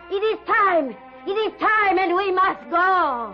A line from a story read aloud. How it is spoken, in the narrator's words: suddenly, Ilse's mother shouted